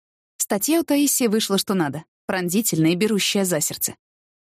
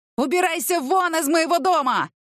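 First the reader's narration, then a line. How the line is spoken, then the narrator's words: Yelling. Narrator (Russian): вопил Волохов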